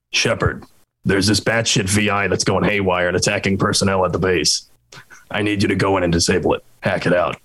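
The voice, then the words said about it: Imitates a game character's voice. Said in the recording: “That's my Hackett impression.”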